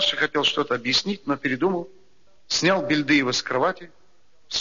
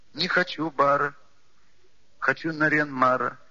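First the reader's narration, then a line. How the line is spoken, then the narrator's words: Child's rhyming whine. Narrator (Russian): складно проскулил маленький Бельдыев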